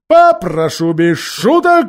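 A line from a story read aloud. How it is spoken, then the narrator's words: Stern policeman. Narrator (Russian): строго сказал полисмен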